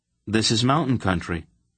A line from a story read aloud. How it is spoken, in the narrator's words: Geryon told her quickly, coming to the defense of his homeland